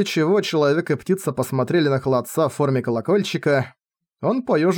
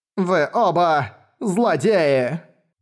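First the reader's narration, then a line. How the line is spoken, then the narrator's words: Loud complaint. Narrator (Russian): громко посетовал холодец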